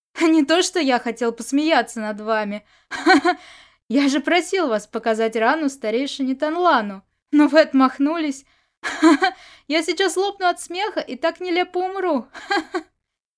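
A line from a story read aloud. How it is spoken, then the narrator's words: Roaring with laughter. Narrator (Russian): Сюэ Джин Юн хохотал, держась за живот обеими руками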